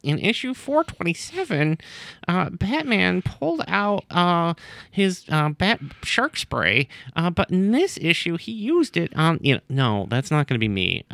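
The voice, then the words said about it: Stereotypical nerdy voice. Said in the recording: “That was my nerd impression. ... That is the nerd voice everybody has. ... that is midnight release GameStop voice.”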